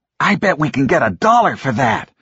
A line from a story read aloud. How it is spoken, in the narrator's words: Fred exclaimed, leaping up and down